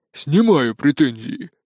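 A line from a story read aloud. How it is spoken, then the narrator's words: Envious sigh. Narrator (Russian): завистливо вздохнул Жорик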